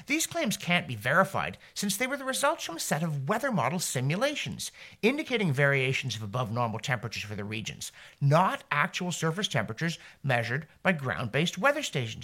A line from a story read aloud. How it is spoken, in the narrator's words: Anthony Watts indignantly declared